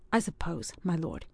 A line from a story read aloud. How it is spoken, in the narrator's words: he now answered gravely